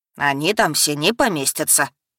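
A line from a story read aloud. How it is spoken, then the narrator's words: Stern displeased academy head. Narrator (Russian): строго ответил недовольный глава академии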